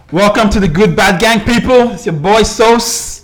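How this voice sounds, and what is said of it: Loud, high-energy shouting delivery. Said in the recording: “Why are you shouting though? ... hype”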